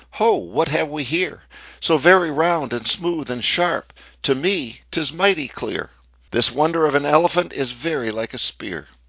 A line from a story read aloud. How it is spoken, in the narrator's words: The second cried